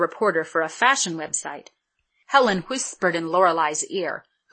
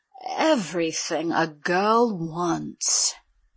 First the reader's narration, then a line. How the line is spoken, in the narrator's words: she said in her sexiest, most enticing voice